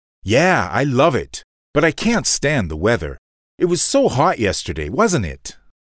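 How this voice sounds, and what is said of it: American English accent. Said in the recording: “you're American, aren't you? ... I heard your accent.”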